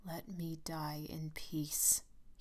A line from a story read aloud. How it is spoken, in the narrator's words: he said slowly